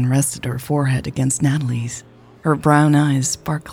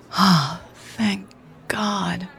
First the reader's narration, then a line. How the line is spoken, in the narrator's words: Natalie sighed